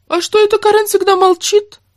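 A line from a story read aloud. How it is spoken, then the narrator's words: Indignant high nasal male voice. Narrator (Russian): возмущался дядька с высоким гнусавым голосом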